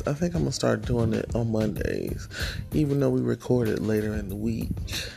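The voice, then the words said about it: Sleepy, just-woken voice. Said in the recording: “I sound sleepy because I did just wake up”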